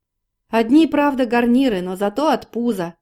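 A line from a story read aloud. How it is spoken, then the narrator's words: Shouting. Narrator (Russian): кричал летчик Андрей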